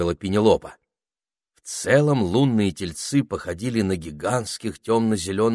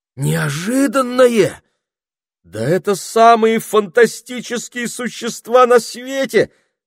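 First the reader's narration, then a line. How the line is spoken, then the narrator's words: Exclaiming. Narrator (Russian): воскликнул Питер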